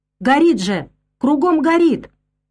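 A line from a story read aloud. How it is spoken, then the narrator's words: Angry shout from behind. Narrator (Russian): Сзади кто-то зло выкрикнул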